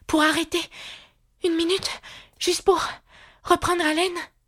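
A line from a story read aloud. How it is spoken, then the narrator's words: Breathless after running. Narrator (French): dit Alice d'une voix haletante après avoir couru encore un peu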